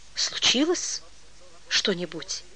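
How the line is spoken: Uncertain, guarded, hushed. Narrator (Russian): Неуверенно, остерегаясь, что телефонистки могут подслушать, проговорил Олейников

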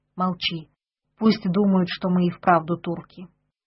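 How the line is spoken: Whisper. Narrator (Russian): Петр шепнул

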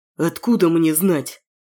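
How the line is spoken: Through gritted teeth. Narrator (Russian): Процедил сквозь зубы Саня

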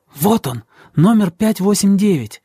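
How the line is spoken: Hissing. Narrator (Russian): она зашипела на меня

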